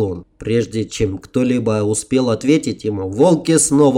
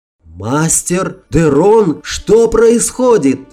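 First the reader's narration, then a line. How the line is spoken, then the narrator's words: Frightened yell. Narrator (Russian): испуганно завопил я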